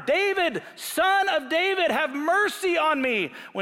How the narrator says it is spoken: shouted louder

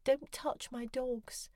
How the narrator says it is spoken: whimpered

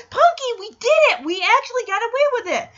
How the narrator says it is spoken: Alan excitedly celebrates to Punky, yelling

